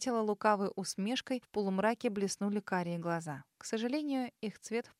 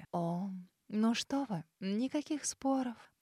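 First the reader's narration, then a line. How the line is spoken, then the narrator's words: Cooing. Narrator (Russian): проворковала леди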